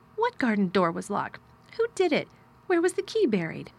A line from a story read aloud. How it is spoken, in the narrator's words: he exclaimed as if he were suddenly very much interested